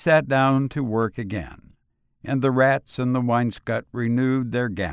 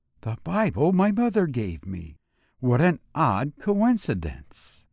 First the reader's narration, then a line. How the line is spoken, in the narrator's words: He looked round uneasily and shivered slightly as he murmured to himself